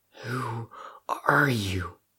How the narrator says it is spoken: Crow asked shakily

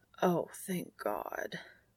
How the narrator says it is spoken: he croaks

